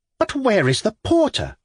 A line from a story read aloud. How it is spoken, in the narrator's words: she cried